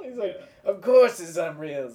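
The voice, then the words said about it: New Jersey cartoon character accent, lisping. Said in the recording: “That was a good accent. You just add an S to the end of things. Because New Jersey people have lisps.”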